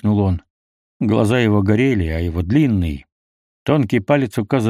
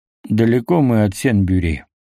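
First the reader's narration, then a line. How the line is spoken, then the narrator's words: Indifferent question. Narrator (Russian): спросил я равнодушным тоном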